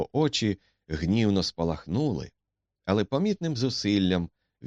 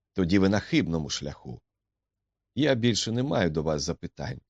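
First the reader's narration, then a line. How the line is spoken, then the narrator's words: Cold. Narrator (Ukrainian): холодно сказав Макдональд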